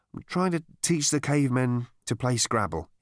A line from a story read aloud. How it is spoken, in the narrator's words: he said